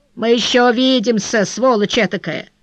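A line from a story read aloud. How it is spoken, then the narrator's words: Threatening tone. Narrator (Russian): проговорив угрожающим тоном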